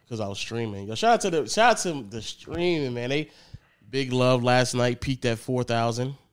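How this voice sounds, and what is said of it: Strained voice from a sore throat. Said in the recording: “Right now, my throat is messed up because last night I was just yelling. Actually, earlier today I was yelling.”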